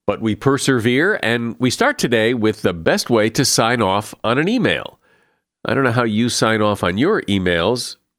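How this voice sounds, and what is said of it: Stuffy, gruff voice from a cold. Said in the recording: “my voice is a little off today. I caught a cold ... I sound a bit stuffy and gruff”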